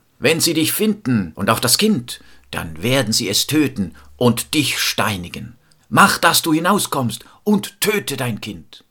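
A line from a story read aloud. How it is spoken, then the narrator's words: Father calling out. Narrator (German): rief der Vater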